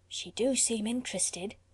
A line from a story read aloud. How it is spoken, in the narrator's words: quoth another in a whisper